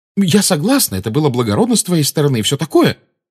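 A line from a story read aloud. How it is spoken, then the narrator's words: Quick. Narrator (Russian): быстро сказала Гермиона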